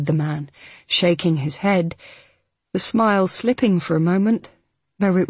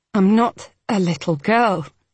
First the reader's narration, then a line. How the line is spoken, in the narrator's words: Hal said through gritted teeth